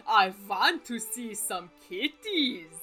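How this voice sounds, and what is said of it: Dracula impersonation voice. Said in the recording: “my Dracula impersonation”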